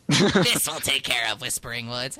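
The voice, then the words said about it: Failed attempt at gruff villain voice. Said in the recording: “I can't do Hordak's voice. ... It's a bit gruff. ... I just can't do it.”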